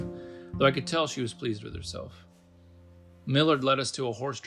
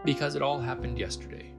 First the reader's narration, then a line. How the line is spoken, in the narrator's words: Millard answered